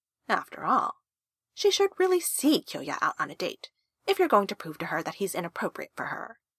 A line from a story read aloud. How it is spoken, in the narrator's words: Karu purred